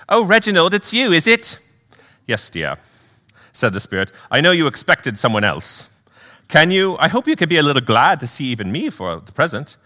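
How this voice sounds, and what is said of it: Put-on accent reading dialogue. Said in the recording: “I'm going to do a little accent work here”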